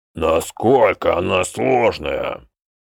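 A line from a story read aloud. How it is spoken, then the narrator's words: Deep bass. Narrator (Russian): пробасил Мектик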